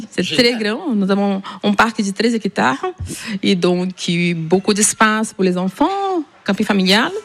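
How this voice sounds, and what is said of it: Southern French accent from Ariège. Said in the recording (French): “Et il vient d'où ce petit accent? ... De l'Ariège.”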